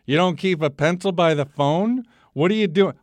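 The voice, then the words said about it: Old Jewish mother accent. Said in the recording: “he's got the accent. ... Sounds like an old Jewish mother.”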